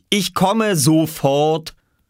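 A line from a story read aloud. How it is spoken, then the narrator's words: Impatient call. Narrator (German): rief er ungeduldig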